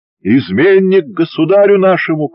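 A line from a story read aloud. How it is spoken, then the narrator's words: Shout. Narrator (Russian): крикнул Афанасий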